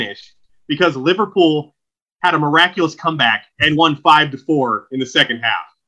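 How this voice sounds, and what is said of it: Usual voice. Nothing is said of it.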